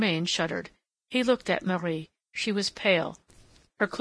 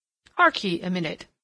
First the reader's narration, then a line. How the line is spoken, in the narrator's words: said the farmer